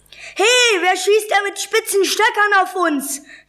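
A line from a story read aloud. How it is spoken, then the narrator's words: Shrieked. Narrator (German): kreischte Julius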